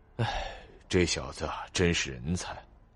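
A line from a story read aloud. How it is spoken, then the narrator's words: Low mutter. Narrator (Chinese): 龙傲明 低声吐了一句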